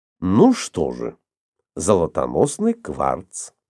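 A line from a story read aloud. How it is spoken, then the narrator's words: Calm speech. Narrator (Russian): спокойно проговорил Иван Павлович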